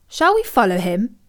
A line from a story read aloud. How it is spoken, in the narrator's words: asked Milo